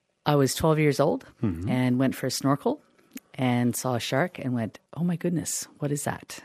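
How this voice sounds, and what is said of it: Canadian accent. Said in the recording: “by your accent, I'm thinking, yeah, okay. Because you're from Canada. ... It is a Canadian accent.”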